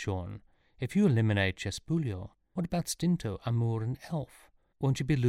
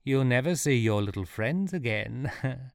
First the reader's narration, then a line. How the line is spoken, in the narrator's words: laughed Chespulio